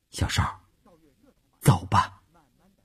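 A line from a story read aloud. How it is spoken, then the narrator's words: Soft. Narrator (Chinese): 乌云轻声地说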